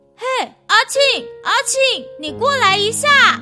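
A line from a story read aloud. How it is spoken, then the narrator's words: Calling out. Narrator (Chinese): 听到有人喊着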